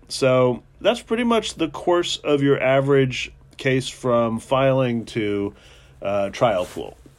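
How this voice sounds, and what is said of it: Congested voice from a cold. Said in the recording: “I have a bit of a cold.”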